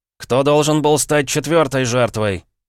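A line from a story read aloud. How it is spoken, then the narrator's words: Barked. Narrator (Russian): рявкнул я, так резко сменив тему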